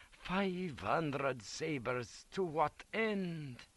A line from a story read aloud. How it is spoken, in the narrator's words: Liprandi looked bewildered and kept muttering